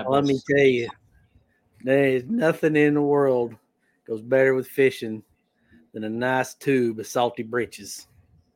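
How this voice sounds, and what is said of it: Country twang accent. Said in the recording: “I got to get a little twang in there ... You guys can both say it better”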